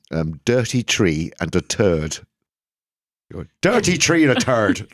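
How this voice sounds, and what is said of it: Poor put-on Irish accent. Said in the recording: “Apologies to anybody from the beautiful Ever Isles. My terrible, appalling”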